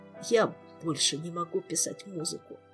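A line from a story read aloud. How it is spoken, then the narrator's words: Quiet trembling confession. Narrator (Russian): тихим дрожащим голосом признался он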